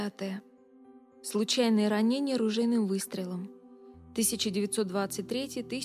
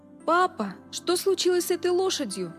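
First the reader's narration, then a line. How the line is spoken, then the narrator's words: Shout. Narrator (Russian): закричал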